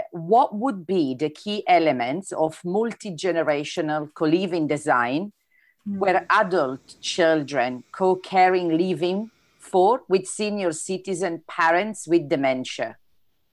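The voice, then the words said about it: Italian accent, hard to understand. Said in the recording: “my italian accent sometimes is difficult to understand”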